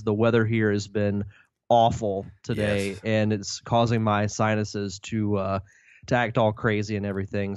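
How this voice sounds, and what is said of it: Nasal, congested voice. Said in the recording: “if my voice does sound a little different ... if I sound a little nasally”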